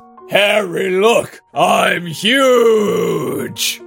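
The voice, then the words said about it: Giant character voice. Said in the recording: “you have to do a giant voice.”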